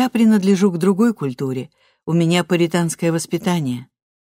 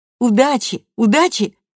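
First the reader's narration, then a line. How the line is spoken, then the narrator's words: Distant shouting. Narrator (Russian): кричали они с другой стороны улицы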